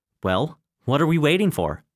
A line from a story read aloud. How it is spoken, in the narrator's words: he asked